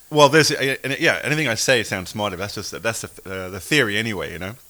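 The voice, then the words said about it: English accent. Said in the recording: “you're English ... you sound smarter ... the English accent”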